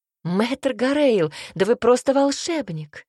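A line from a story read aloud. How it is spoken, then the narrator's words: Exclamation. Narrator (Russian): воскликнула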